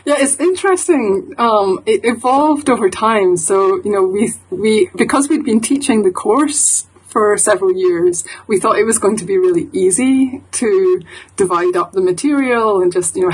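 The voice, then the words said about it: East of Scotland Edinburgh accent. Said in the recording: “the bit of, what would you call it, a brogue? ... I have a East of Scotland, Edinburgh accent.”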